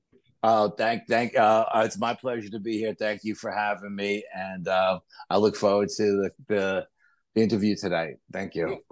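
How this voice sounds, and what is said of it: New York accent. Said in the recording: “we are endlessly just enraptured with the New York accent.”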